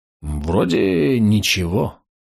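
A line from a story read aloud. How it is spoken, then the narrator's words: Mumbling. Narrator (Russian): промямлил он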